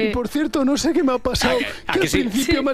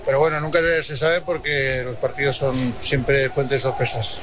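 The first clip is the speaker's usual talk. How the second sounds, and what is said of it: Imitated voice with strong Aragonese accent. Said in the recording (Spanish): “Me ha salido acento mañito ... Pero mucho, bastante, ¿eh?”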